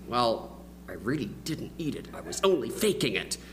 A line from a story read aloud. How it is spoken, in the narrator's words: sort of muttered under my breath